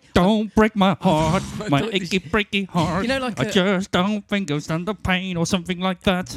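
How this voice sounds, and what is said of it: Put-on American accent. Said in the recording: “that's a good American accent”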